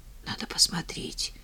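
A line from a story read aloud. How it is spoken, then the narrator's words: Whispered. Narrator (Russian): прошептал Макс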